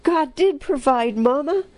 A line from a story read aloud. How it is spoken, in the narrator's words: one of the boys exclaimed